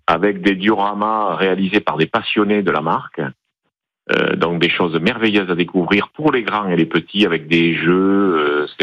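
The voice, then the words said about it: Southern French Toulouse accent. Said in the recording (French): “vous avez un petit accent de Marseillais ou c'est du Sud-Ouest ... De la ville des champions de rugby, Toulouse.”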